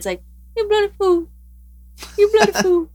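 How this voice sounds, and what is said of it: Imitation of a talking duck. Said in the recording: “Let me see if I can imitate ... I actually think that's a really good impression”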